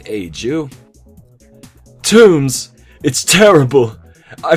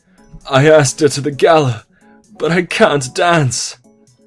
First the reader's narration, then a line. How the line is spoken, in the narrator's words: Blueblood said desperately